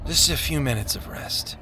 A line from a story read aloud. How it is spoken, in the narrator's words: Hopeful mumbled